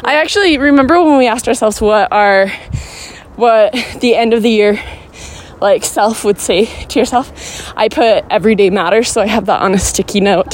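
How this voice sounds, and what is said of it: Out of breath. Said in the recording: “you can hear me out of breath. It's because we're going up a hill.”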